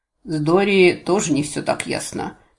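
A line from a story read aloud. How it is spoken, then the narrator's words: Half-elf's snort. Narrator (Russian): хмыкнул полуэльф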